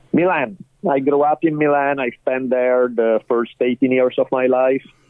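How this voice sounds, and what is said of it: Heavy Italian accent. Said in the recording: “your voice and your accent ... the tiny bit of an accent that I may have ... my heavy Italian accent never leaves me”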